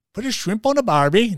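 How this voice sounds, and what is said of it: Failed Australian accent, sounds Irish. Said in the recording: “try an Australian accent ... that was that Irishman ... Irishman down under”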